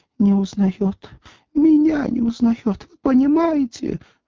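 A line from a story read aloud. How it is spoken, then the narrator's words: Sobbing outburst. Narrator (Russian): взрыдала секретарь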